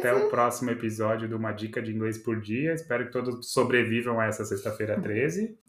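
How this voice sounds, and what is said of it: Portuguese with a foreigner's accent. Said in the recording (Portuguese): “eu fico com esse sotaque de gringo”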